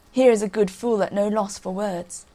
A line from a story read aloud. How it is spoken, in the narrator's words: The king and his barons laughed and said